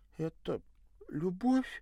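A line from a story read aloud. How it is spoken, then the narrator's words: Frightened yet hopeful question. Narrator (Russian): испуганно и в то же время с надеждой поинтересовалась жертва любви культуриста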